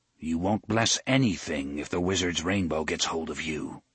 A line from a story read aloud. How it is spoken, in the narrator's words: Letigo said grimly